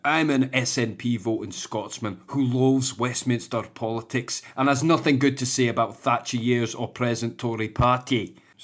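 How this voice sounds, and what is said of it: Put-on Scottish accent. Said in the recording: “That's the Scottish. I'm fucking Scottish. ... I'm going to do the whole accent here. ... I know I've changed accents here”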